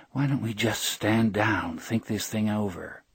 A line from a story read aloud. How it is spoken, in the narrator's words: Murmuring under her breath, unaware she was doing it, Audrey said